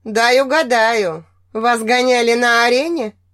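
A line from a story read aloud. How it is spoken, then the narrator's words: Short chuckle. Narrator (Russian): Коли коротко хохотнул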